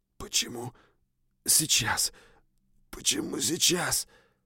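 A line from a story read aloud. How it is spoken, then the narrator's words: Continued whispering. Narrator (Russian): продолжал шептать я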